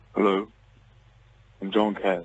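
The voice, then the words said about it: Deep-voiced celebrity impression. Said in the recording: “your best Johnny Cash impersonation ... get the deep voice”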